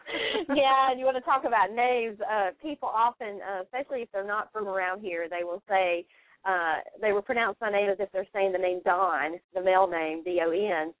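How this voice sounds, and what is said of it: Southern North Carolina accent, twang. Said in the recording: “that Mayberry twang to it ... It's a charming accent you have ... the North Carolina, the up-power one”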